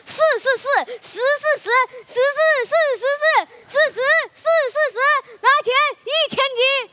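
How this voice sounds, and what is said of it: Garbled tongue-twister, mixed-up sibilants. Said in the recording (Chinese): “口音 ... 那舌头都没捋直”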